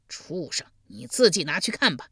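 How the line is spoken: Cold laugh. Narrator (Chinese): 献公冷声一笑道

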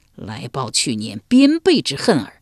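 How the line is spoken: Sneering. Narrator (Chinese): 洛冷笑道

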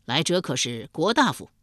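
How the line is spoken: Loud call. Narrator (Chinese): 梁尧弥……高声叫道

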